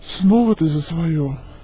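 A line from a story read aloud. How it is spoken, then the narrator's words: Weary sigh. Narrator (Russian): устало вздохнул мужчина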